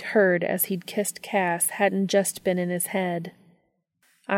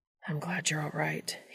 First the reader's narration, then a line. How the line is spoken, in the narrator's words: he murmured